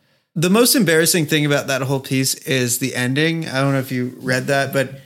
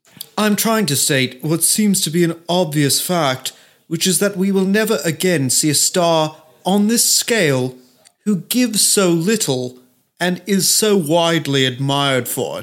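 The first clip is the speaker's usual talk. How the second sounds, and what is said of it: Put-on posh accent. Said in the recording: “he probably has a posh accent. It's like, ... I can't do the accent anymore.”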